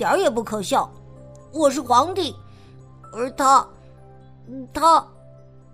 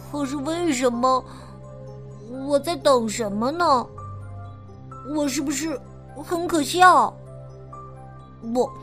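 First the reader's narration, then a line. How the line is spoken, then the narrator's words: Quiet mumble. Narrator (Chinese): 小皇帝小声嘟囔着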